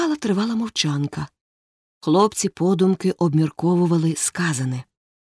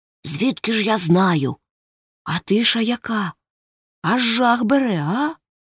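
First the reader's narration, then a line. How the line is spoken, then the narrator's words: Whispered reply. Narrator (Ukrainian): Гекльберрі прошепотів у відповідь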